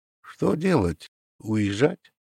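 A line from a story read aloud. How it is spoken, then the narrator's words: Quiet question. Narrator (Russian): Водитель тихо спросил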